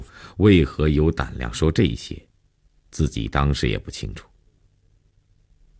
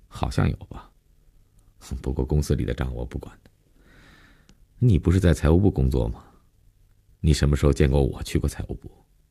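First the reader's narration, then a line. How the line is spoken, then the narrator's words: Indifferent, casual. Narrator (Chinese): 林信成淡淡的无所谓的承认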